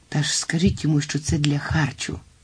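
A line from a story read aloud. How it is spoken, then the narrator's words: Desperate whisper. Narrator (Ukrainian): розпачливо зашепотів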